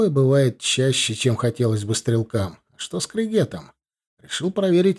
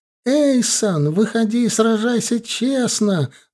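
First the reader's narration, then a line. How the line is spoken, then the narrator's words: Yelling again. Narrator (Russian): заорала она вновь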